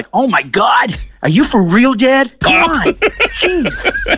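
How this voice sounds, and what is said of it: Imitated child's American accent. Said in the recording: “his American accent”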